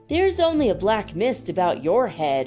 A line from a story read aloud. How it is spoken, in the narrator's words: answered the fox